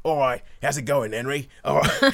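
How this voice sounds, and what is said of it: Put-on Cockney accent. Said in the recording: “this Cockney geezer shows up and goes”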